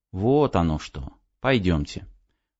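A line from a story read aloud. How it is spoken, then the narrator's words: Quiet speech. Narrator (Russian): Негромко сказал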